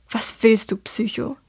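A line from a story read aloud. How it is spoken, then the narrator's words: Hissed. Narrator (German): zischt sie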